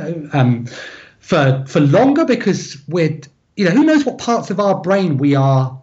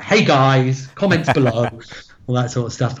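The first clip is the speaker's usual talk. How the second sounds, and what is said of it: Imitates a YouTuber's presenting voice. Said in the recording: “does a very good impression of YouTubers”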